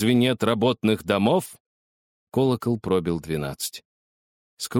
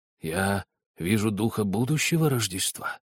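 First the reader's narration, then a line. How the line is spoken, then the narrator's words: Plain. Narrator (Russian): спросил Скрудж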